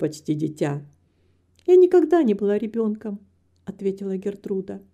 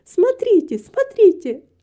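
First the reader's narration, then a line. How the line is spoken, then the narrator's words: Joyful exclamation. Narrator (Russian): радостно воскликнула она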